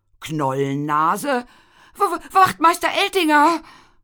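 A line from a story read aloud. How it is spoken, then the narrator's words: Stammering. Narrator (German): stammelte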